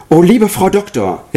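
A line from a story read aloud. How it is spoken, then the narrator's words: Call. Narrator (German): rief ich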